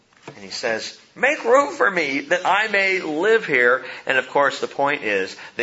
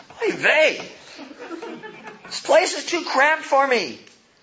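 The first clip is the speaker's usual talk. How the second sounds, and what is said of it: Put-on Yiddish accent. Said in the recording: “with a kind of a Yiddish accent?”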